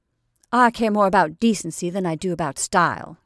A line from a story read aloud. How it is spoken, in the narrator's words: she snapped